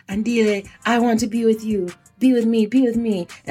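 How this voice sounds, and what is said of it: Put-on African accent. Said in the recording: “Do you guys like my African accents, by the way? I'm pretty sure I'm going to get roasted for this.”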